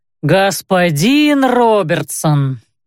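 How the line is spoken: Reproachful drawl. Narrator (Russian): укоризненно протянул дежурный

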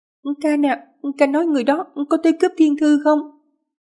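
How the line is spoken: Stammering, slightly fearful. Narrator (Vietnamese): Đường Tiểu Đường trong lòng nảy sinh một tia sợ hãi, ấp úng hỏi

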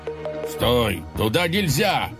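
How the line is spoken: Shouted. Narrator (Russian): крикнул

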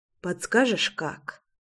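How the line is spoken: Soft request. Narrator (Russian): тихонько попросила я

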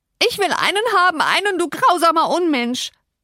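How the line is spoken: Shriek. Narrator (German): kreischte sie

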